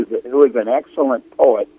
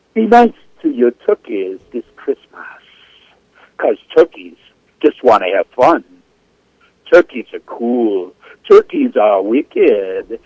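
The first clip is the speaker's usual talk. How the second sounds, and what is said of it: Put-on Jamaican accent. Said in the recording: “I do it in my best Jamaican accent”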